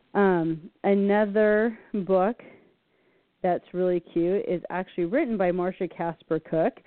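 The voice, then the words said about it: Hoarse, strained voice. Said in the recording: “I'm losing my voice here”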